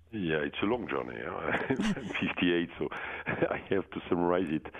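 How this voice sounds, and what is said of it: French accent. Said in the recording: “Oh, that's a French accent. I was thinking it was Michigan.”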